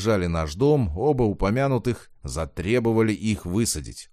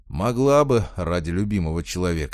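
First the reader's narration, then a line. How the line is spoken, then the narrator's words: Sigh. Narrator (Russian): вздохнул я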